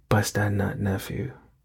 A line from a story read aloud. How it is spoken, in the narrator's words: whispered in my ear